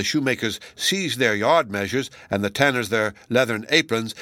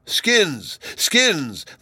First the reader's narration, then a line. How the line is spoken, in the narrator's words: they cried mockingly